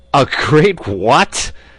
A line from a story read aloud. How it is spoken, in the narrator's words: roared Lambert